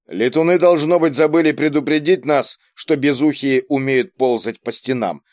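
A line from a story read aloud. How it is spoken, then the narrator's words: Plain. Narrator (Russian): сказал Кийск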